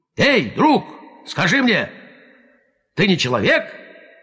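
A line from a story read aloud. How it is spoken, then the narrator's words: Tiger shouting. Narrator (Russian): тигр крикнул верблюду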